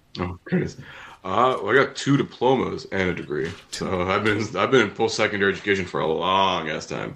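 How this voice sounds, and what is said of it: Smooth radio announcer voice. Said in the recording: “He's got a good radio voice. ... you do have a good radio voice.”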